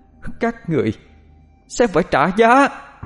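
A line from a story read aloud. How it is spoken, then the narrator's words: Ringing, almost screaming. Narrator (Vietnamese): giọng nói của Vong Nhi vang lên, nói mà như thét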